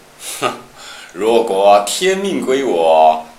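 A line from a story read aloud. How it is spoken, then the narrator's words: Laughing. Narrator (Chinese): 董卓笑曰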